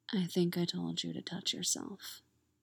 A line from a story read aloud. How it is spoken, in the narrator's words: whispers, lips right next to her ear